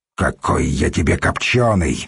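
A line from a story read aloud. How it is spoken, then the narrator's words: Angry retort. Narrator (Russian): сердито бросил пловец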